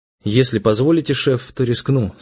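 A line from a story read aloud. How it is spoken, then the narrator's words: Plain. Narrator (Russian): сказал я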